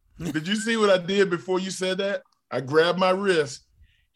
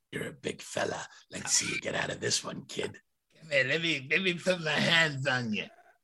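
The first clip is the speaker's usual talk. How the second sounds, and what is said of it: Imitates another person's voice. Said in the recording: “my Stu Hart impersonation”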